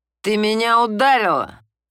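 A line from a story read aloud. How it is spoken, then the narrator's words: Growling through clenched teeth. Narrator (Russian): сквозь стиснутые зубы прорычал он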